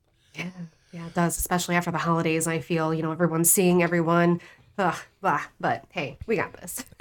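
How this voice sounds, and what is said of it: Sick, sniffly voice. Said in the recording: “My voice may go in and out, or I may sniffle”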